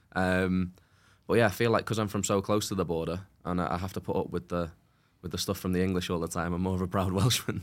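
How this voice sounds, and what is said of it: English Chester-sounding accent. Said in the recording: “not many people knew that I was from North Wales with the accent. It's a very English sort of Chester-sounding accent.”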